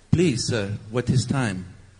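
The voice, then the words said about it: Generic European accent. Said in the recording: “That's a general, maybe European accent.”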